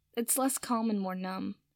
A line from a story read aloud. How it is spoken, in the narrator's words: Draco said with a sigh